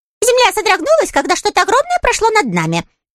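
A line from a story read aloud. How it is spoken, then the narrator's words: Squeaky voice. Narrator (Russian): пропищал он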